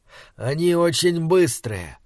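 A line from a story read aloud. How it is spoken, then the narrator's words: Lecturing voice, doctor. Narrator (Russian): так рассказывал мне доктор когда-то своим лекторским голосом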